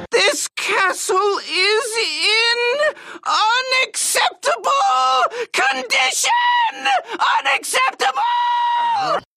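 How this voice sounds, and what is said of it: Screamy cartoon character voice. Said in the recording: “I just did the screamy voice.”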